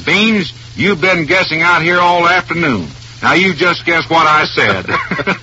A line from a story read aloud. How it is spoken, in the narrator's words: I barks back at him